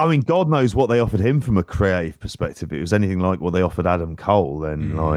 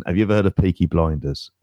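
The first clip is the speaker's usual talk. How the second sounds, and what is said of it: Imitates another person's accent. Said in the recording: “Oh, I can't do his accent.”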